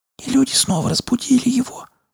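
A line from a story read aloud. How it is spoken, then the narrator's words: Ominous whisper. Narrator (Russian): зловеще прошептала Рина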